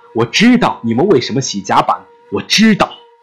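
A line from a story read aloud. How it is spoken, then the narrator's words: Shouting after someone. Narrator (Chinese): 检察员对着船员的背影大喊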